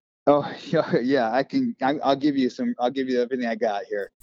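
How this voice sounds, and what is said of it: Usual voice. Nothing is said of it.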